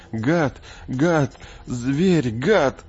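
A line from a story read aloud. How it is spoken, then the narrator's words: Sobbing, repeating. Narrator (Russian): Томми на заднем сиденье всхлипывал, повторяя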